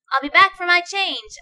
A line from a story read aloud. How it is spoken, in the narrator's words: I yell